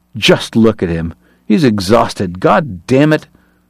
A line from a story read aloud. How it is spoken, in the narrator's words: Uncharmed, Kate snarled